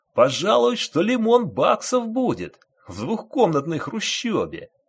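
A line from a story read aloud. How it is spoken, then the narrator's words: Cheerful announcement. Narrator (Russian): радостно сообщил практикант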